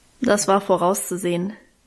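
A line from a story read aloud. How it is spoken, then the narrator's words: Dry remark. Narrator (German): meinte sie trocken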